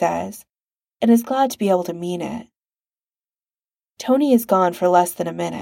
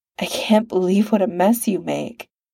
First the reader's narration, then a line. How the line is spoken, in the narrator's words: Tony murmurs, but he doesn't actually sound bothered, more amused than anything